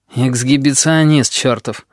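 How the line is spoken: Grumbling. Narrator (Russian): проворчал Сфинкс

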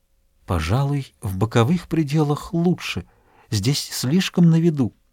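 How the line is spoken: Mysterious hushed whisper. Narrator (Russian): она прошептала таинственным тоном, каким обычно говорят в церкви

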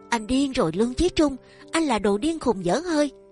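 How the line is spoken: Screamed. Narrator (Vietnamese): Tâm Nhị cũng cất tiếng kêu thét lên

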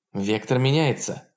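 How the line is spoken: Tense announcement. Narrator (Russian): объявила тактик напряженным голосом

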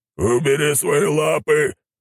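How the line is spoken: Wolf's growl. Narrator (Russian): прорычал волк

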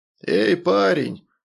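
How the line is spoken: Hoarse-voiced gang leader. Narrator (Russian): обратился ко мне сепловатым голосом главарь

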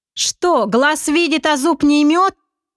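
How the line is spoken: Cheerful shouting. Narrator (Russian): весело прокричал Олег

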